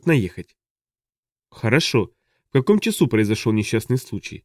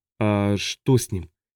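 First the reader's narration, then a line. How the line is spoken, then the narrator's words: Quiet question. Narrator (Russian): тихо спросил он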